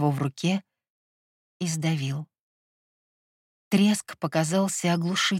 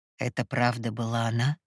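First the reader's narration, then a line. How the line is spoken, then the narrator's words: Quiet question. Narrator (Russian): тихо спросил Морос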